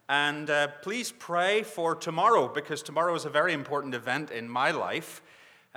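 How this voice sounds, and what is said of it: Northern Irish accent. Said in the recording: “as you know from my accent, I'm not from around these parts... my accent does go back a little further, although it's changing a lot... originally from Northern Ireland”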